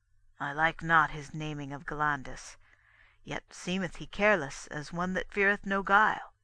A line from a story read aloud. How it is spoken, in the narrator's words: Corsus spake softly to his sons